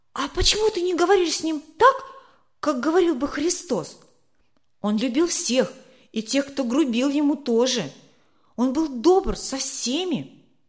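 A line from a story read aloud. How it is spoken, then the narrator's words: Excited question. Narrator (Russian): взволнованно спросила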